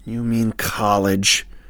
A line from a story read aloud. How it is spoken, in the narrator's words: said, hissing out a frustrated breath